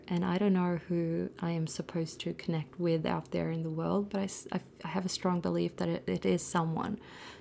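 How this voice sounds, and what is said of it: Non-native English accent. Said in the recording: “Maybe my English is so crap that some people do not find it easy to even sit and listen ... underneath her accent”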